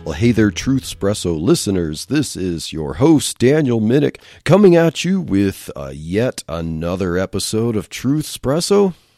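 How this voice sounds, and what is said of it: Lower, congested voice. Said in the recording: “my voice sounds a little bit lower in this recording, and that is because I am still just getting over a head cold”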